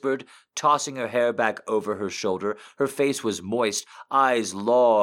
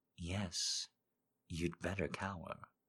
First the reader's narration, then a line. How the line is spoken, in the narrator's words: she whispered